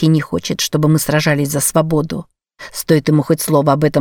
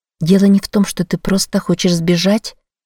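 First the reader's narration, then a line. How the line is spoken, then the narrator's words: Gentle question. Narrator (Russian): мягко спросила я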